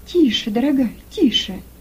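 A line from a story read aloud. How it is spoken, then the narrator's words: Soft, soothing. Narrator (Russian): Мягко остановила ее Рахиль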